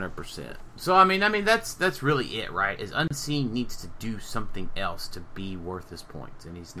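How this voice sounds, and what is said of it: Usual voice. Nothing is said of it.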